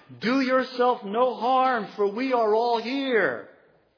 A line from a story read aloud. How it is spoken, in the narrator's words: Paul called out with a loud voice, saying